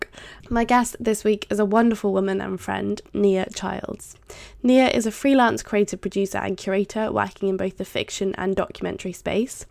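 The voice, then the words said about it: Congested voice from a cold. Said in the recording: “I've got a bit of a cold at the moment ... it's quite difficult to talk”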